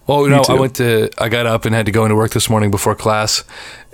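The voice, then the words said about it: Rough voice with throat catch. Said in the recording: “My voice is doing things. ... You got a weird little schmagoigle going on. ... I can't clear it.”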